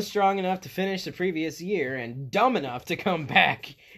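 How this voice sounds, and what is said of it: Usual voice. Nothing is said of it.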